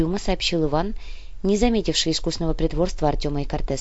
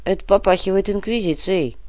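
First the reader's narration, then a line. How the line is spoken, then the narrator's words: Grumbling. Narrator (Russian): пробурчал Артем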